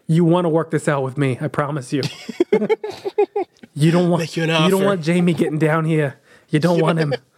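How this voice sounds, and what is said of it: New York accent. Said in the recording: “That's a New York accent.”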